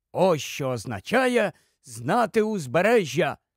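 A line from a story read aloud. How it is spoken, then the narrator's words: Delighted exclamation. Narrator (Ukrainian): захоплено вигукнув Тіквік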